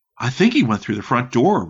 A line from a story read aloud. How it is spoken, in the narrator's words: Rick said